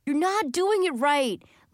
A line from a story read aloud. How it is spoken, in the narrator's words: Lenny Sue was yelling